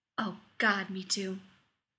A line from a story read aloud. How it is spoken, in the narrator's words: Rodney breathed, relieved